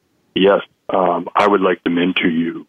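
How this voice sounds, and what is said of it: Creepy put-on voice. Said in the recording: “that's my creepy voice, and in the creepiest way possible”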